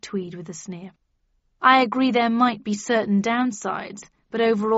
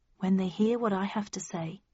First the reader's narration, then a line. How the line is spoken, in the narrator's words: I replied calmly